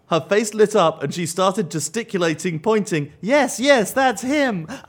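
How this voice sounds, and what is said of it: American Southern accent. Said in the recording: “your American, your Southern ... accent”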